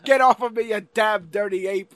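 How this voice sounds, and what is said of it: Theatrical old-fashioned movie-acting voice. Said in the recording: “They talk in this weird acting... And there's a cadence... Acted accent”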